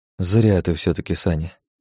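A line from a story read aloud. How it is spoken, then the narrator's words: Quiet. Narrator (Russian): негромко проговорил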